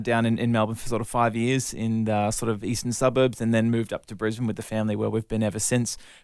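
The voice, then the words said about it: Australian accent, somewhat mixed. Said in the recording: “I'm 100% Aussie, even if my accent now fa- sounds a little bit confused.”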